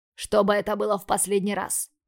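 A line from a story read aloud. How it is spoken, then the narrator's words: Barked. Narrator (Russian): Рявкнул он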